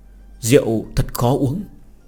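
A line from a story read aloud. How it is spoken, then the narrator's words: Choked boy, quiet complaint. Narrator (Vietnamese): thiếu niên sặc ra nước mắt vì một ngụm rượu mạnh, nhỏ giọng oán giận nói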